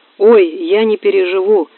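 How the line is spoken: Exclaiming. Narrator (Russian): воскликнула докторша

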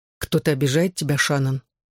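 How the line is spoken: Deadly calm question. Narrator (Russian): убийственно спокойным тоном спросил он

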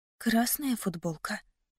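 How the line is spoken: Whisper. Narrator (Russian): прошептала я

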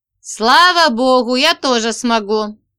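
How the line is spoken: Laughing. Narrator (Russian): опять засмеялся парень

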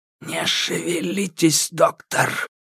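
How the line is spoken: Hiss. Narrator (Russian): вновь прошипела фигура

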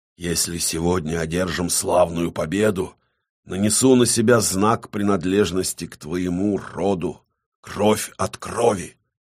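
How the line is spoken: Clearly audible whisper. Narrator (Russian): несмотря на шепот, эти слова были отчетливо услышаны

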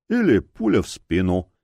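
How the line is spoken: Lazy good-natured warning. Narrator (Russian): лениво-добродушно предостерег Грок

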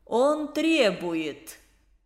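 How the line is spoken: Mocking. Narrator (Russian): насмешливо откликнулся завуч

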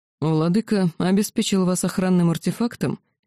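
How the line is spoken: Calm question, dragon. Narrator (Russian): спокойно спросил дракон

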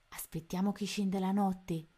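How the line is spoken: Plain. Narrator (Italian): rispose Tony

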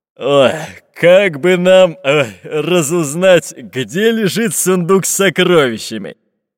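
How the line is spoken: Deep bass, fat pirate. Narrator (Russian): пробасил толстый пират

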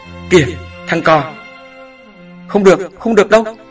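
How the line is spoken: Old woman's alarmed scream. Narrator (Vietnamese): khi nhìn thấy cái bóng đen đứng dương nọ, bà bỗng hét lên

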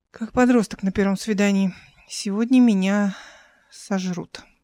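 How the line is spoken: Exhaled. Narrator (Russian): выдохнула

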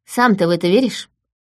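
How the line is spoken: Snorting. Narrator (Russian): фыркнула я

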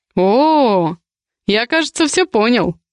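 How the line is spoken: Snort. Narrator (Russian): хмыкнул Михаил

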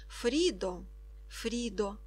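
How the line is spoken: Whispered in ear. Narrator (Ukrainian): прошепотів Ка у ухо Фріди

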